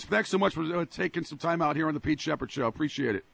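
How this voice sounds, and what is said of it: Hoarse voice from laryngitis. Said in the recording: “excuse my laryngitis today ... Boy, you've been yelling and screaming.”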